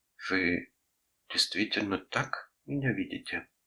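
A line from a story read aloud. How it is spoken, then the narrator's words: Sad question. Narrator (Russian): спросила она грустно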